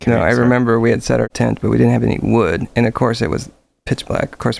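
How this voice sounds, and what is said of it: Usual voice. Nothing is said of it.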